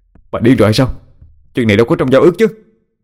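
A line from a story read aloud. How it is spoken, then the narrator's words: Irritable snap. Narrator (Vietnamese): Nam gắt lên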